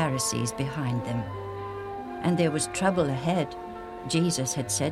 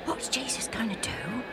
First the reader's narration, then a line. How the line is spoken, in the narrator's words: Alf whispered to Joe